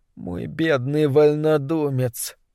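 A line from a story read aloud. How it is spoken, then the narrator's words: Mumbling. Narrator (Russian): пробормотала она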